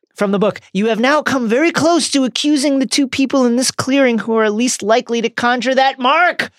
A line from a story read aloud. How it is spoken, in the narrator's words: barked Mr